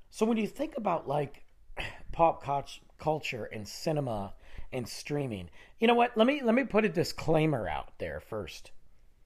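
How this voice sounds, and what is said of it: Nasal, strained, losing voice. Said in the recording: “my nasally voice and the lack of voice ... I'm yelling because I'm losing my voice”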